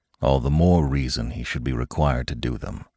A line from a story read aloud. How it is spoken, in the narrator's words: her father muttered